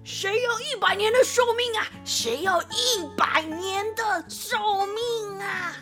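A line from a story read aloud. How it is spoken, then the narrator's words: Loud shout. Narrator (Chinese): 这么大声一喊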